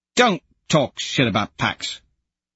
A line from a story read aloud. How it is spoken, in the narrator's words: Pebble snaps